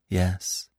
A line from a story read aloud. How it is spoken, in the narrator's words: said Marina softly